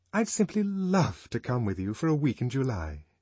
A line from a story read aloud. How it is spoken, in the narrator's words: aloud, and more warmly than ever